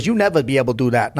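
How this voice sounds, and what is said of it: Put-on Filipino accent. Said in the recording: “It was a great accent, though... it was not good.”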